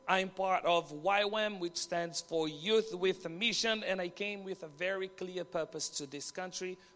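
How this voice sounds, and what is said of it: Brazilian accent. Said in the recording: “I came from Brazil ... So my accent is a little bit weird.”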